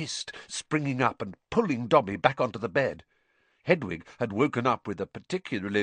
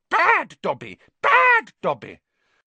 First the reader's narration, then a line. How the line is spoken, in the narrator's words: shouting